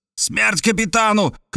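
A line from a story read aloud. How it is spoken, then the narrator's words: Lieutenant shouting back. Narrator (Russian): крикнул в ответ лейтенант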